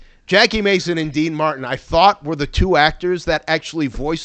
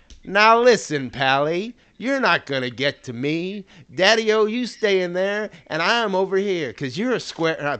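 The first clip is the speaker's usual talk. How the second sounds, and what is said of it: Imitates another person's voice, badly. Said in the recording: “worst Dean Martin impersonation of all time”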